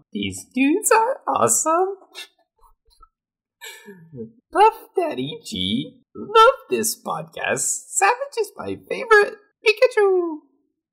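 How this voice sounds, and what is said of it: Pikachu voice. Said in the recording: “read this review in the accent as Pikachu”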